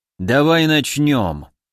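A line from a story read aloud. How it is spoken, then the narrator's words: Gloomy. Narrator (Russian): мрачно произнес Гавриил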